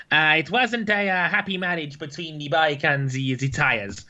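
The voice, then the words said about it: Put-on Italian-style foreign accent. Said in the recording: “my best Valentino Rossi impression. ... foreign accents ... it's normally a bit better than that”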